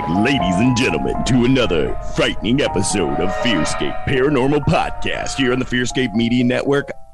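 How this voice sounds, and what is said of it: Deep, sweet DJ-like voice. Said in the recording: “I have a cold. That's why I can do the sweet, deep DJ voice of your dreams.”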